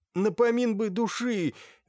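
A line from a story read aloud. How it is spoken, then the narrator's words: Pleading. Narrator (Russian): взмолился Макар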